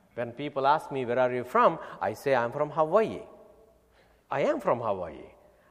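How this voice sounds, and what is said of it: Indian English accent. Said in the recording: “your accent is different... I am originally from India”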